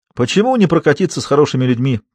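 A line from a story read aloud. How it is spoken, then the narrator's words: Almost cheerful reply. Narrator (Russian): почти весело откликнулся мужчина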